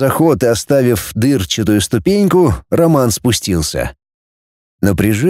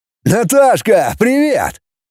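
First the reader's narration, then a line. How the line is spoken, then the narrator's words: Shouting. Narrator (Russian): закричал Глеб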